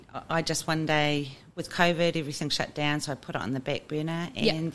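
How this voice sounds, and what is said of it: New Zealand accent. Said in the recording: “the Kiwi accent”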